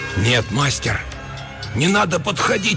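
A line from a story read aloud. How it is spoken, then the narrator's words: Attempted shout, barely audible whisper. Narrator (Russian): Попытался крикнуть я и сам едва услышал свой шепот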